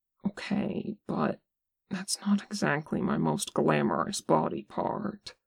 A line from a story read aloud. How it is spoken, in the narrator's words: He looks flattered but unconvinced and mumbles